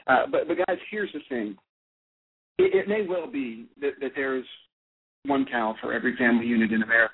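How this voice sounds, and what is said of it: Southern Alabama accent. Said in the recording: “I'm from Alabama. I come by this accent honestly. I'm, I'm not I'm not putting on airs for you here.”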